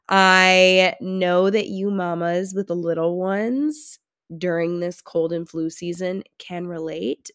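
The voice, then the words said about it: Raspy, congested voice. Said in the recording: “my raspy voice and plugged nose”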